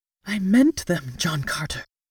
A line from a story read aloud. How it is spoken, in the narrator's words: she whispered